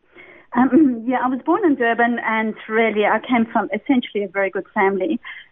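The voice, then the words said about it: South African accent. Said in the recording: “a beautiful South African accent”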